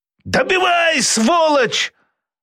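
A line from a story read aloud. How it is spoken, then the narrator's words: Desperate scream. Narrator (Russian): отчаянно завопил Абу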